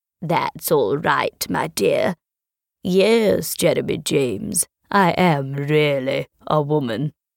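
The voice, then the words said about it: Deep-voiced woman character. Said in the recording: “why have you got such a deep voice?”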